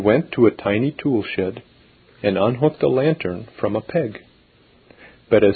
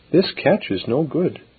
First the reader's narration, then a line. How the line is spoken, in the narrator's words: murmured the child to herself